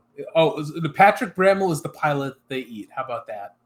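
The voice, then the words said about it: Put-on British accent. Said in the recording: “That wasn't an Aussie accent. ... No, it's a British accent.”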